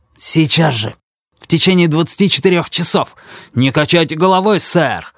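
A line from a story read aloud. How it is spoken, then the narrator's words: Angry shout. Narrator (Russian): зло выкрикнул Пикеринг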